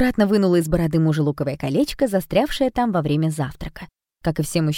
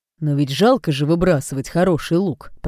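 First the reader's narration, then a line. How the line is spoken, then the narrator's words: Grumbled. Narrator (Russian): проворчал отец Немо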